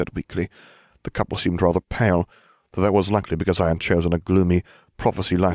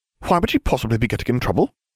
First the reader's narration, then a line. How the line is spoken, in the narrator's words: Hermione said sharply